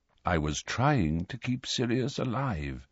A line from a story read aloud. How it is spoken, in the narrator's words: said Dumbledore quietly